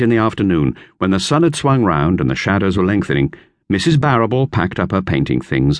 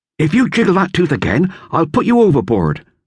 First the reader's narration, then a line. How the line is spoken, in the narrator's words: said Bill fiercely